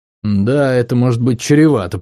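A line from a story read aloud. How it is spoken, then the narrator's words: Grumbling. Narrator (Russian): проворчал Тари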